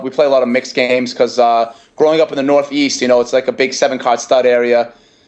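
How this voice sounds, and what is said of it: Boston accent, harsh hoarse voice. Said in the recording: “my voice is very harsh and hoarse right now ... you got that Brockton, you got that Boston accent right now”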